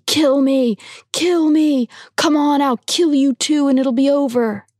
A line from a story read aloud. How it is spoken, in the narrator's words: screaming